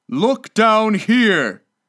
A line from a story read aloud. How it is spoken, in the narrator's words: exclaimed the ghost